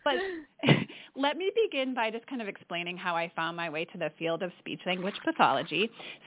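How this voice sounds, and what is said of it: Midwestern American accent. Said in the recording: “I grew up in Michigan ... my Midwestern accent is going to come out speaking with you today”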